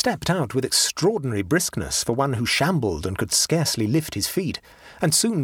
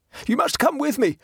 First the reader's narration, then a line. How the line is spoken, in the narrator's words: he panted